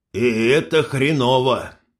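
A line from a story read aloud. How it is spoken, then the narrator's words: Sighing. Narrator (Russian): вздохнул Кириллыч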